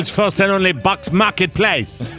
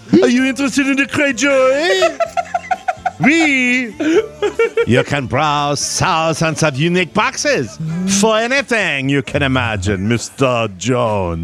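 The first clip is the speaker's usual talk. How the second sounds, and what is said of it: Put-on mixed French-style accent. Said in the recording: “I don't know if they want me to do a French accent ... I'm just hybriding accents.”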